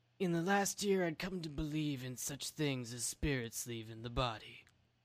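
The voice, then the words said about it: Imitates another person's voice. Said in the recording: “your best Nicolas Cage impression ... pardon me while I murder this Nicolas Cage quote”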